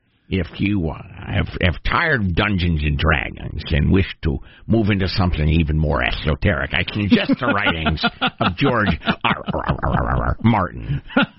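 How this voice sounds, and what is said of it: Put-on geeky voice, speech impediment. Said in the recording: “What is that accent you're adopting for this? ... some sort of geeky, for some reason, speech impediment.”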